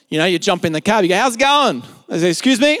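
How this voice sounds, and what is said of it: Strong broad Australian accent. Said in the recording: “how strong my accent was ... that is a bogan accent if I've ever heard it”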